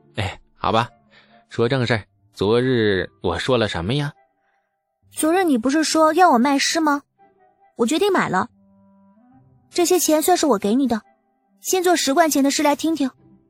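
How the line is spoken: Cheerful, smiling. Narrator (Chinese): 李素心情顿时好了许多，展颜笑道

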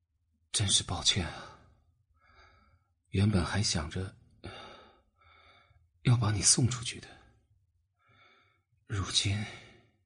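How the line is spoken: Weak, drained voice. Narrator (Chinese): 他的声音微弱，像是被抽干了全身的力气

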